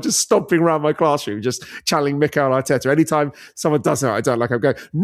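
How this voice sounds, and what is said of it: Usual voice. Nothing is said of it.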